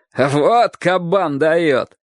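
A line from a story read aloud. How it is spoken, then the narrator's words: Laughing crowd shouting. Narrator (Russian): многие взрослые смеялись его выходки и кричали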